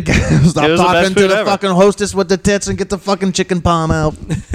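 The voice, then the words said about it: Poor put-on Italian accent, yelling. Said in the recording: “That's my Italian accent. Yeah. I'm so bad at it.”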